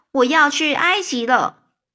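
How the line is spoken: Calling out. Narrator (Chinese): 那燕子就在面对着他们这边叫着说

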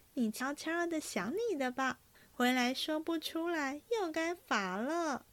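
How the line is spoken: Laughing. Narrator (Chinese): 云儿便 … 笑道

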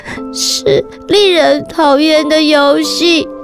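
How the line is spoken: Near tears. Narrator (Chinese): 尤佳快哭了，最后终于开口说

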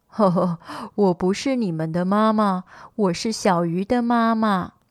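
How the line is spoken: Laughing. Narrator (Chinese): 大鱼笑着说

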